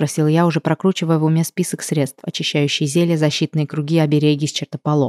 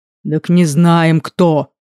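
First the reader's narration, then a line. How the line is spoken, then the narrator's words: Deep booming half-orc voice. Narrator (Russian): прогудел полуорк-полутролль Эскар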